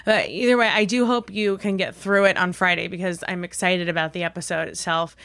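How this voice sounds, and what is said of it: Husky, sick-sounding voice. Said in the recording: “my voice sounds horrible. I was really sick ... annoyed by the huskiness”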